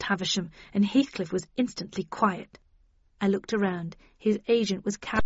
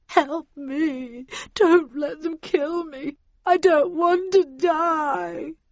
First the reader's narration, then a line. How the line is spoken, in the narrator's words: heard Heathcliff whimper